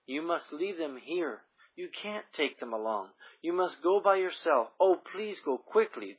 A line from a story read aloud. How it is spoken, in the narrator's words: the man groaned